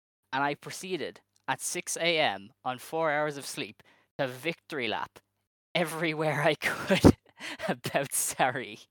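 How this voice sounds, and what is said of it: Strong Irish accent, excited. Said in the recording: “sounded more Irish in that little excited tangent than I've like perhaps ever heard you ... your accent came through because of how excited you are”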